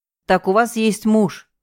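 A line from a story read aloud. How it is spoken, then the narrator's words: Snorting hmph. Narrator (Russian): хмыкнул он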